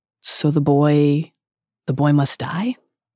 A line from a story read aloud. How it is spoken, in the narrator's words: he's described as speaking calmly, he is clearly disturbed